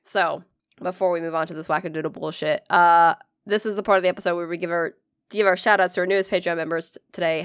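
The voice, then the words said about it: Congested, rattly chesty voice. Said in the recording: “I'm trying to breathe, man. I got shit in my chest. I sound like a garbage disposal.”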